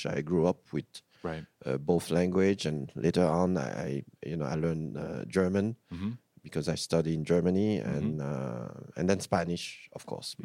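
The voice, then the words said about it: Thick accent. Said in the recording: “I still have a thick accent”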